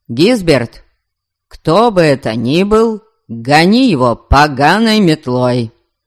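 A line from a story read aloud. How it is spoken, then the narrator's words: Loud. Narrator (Russian): В ночной тиши дома его голос прозвучал особенно громко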